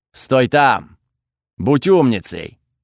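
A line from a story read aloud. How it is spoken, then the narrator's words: Fire goddess barking. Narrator (Russian): рявкнула богиня огня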